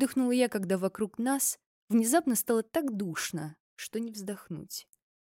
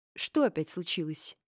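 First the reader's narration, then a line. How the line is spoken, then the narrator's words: Gloomy question. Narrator (Russian): мрачно уточнил Фрейн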